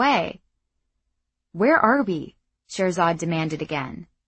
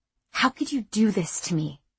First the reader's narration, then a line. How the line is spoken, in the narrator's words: She whispered